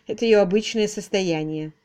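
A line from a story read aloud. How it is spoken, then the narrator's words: Dry. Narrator (Russian): сухо отозвалась мисс Силвер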